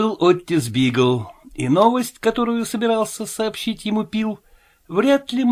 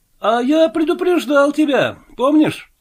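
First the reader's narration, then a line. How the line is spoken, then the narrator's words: Triumphant exclamation. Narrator (Russian): торжествующе воскликнул Пил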